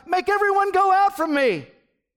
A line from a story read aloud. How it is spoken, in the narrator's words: He cried